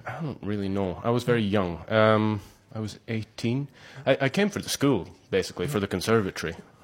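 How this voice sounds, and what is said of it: Scottish accent. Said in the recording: “You do have a wonderful Scottish accent.”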